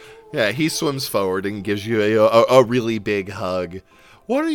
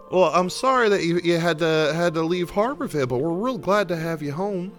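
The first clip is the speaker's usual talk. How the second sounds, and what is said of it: Put-on Southern accent. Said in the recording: “why am I Southern all of a sudden? ... He in universe changes his accent every time.”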